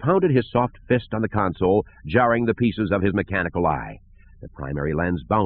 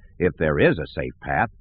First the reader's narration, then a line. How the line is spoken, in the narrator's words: muttered